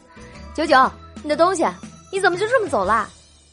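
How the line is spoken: Called out. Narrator (Chinese): 妙姐喊道

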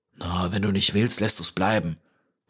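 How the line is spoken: Vagabond's growl. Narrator (German): knurrte der Vagabund

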